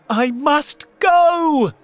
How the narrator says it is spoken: Cinderella shouted

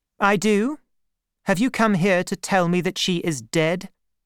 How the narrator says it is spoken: said coldly

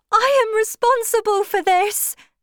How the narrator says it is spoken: cried the girl

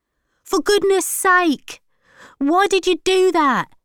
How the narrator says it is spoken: shouted Archie

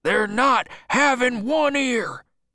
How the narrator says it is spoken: shouted Bill

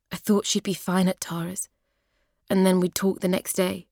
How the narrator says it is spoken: he says

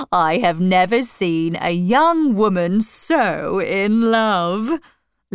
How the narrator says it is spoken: laughed

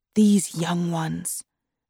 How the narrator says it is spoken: whispered Razia to Nazneen

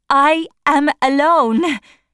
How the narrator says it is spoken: she cried, by the fountain in Regent's Park

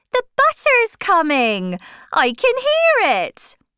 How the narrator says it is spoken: Crick suddenly shouted

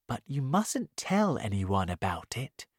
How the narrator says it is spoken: the tortoise answered quietly

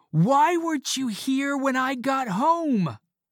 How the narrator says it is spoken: I shouted angrily

